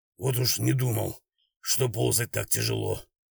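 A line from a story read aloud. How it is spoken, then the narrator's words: Breathless whisper. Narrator (Russian): Степаныч и, тяжело дыша, прошептал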